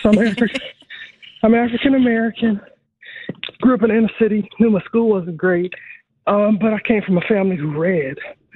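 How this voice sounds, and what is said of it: Out of breath. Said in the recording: “I'm sorry, I'm out of breath, ... let me catch my breath for a second.”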